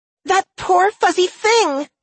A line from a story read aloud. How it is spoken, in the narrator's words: she wailed